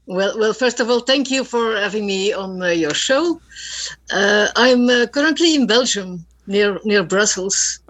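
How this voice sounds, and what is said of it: Speaks with a foreign accent. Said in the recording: “you have an accent. I love it.”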